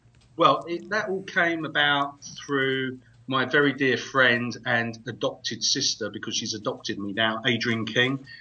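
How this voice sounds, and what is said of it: Attractive non-American accent. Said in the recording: “really likes your accent ... That's his accent. Sure is sexy ... the accent is just like killing us here”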